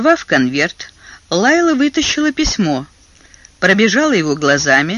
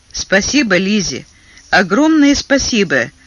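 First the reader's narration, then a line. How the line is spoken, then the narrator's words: Grumbled. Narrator (Russian): проворчала Лайла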